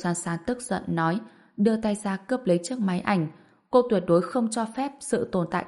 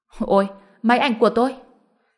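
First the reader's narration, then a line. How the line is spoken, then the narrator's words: Alarmed cry. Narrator (Vietnamese): Tên đó la lên một tiếng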